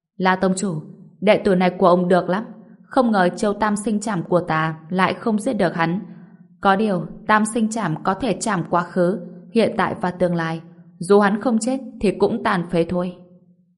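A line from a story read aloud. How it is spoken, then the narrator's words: Smiling after long pause. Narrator (Vietnamese): Một lúc lâu sau, ông ta mới mỉm cười nói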